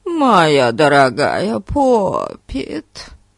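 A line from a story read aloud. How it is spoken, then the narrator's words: Affected mocking voice. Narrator (Russian): Жеманным голосом сказал он, передразнивая миссис Лоренцо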